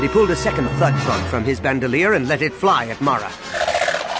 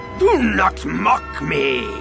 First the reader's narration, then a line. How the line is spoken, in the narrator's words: Yeoman Carr roared